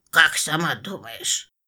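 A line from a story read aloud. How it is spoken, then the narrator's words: Muttered reply. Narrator (Russian): буркнул в ответ нежданный гость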